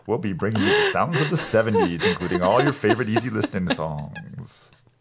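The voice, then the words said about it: Smooth easy listening radio announcer voice. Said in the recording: “You sound like you should be on Let's Make a Deal. ... I'm doing my easy listening radio voice right now.”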